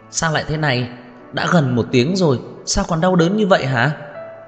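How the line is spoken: Agitated, panicked voice. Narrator (Vietnamese): giọng nói mất bình tĩnh của Lục Cẩn Niên

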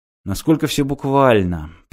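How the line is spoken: Mutter. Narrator (Russian): пробормотал Мартин

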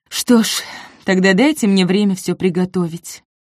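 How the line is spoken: Sighing woman. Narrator (Russian): вздохнула девушка

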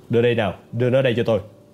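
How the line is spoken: Loud laughter. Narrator (Vietnamese): Vera cười lớn

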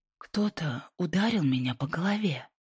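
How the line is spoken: Pained whisper. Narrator (Russian): прошептала Инди, сжавшись от боли

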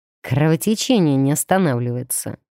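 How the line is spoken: Grim. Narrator (Russian): мрачно заметил он

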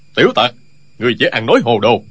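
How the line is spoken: Loud shout. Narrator (Vietnamese): Tiên Du Thông quát lớn

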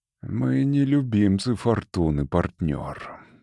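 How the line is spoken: Calm, resolute. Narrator (Russian): спокойно и решительно сказал Валанд

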